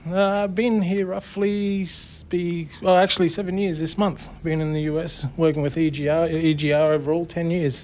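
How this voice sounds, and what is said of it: Australian accent. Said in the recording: “you're freaking Australian”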